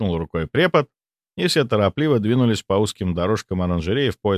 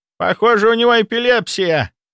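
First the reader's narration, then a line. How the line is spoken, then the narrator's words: Alarmed shout. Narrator (Russian): закричал встревоженный препод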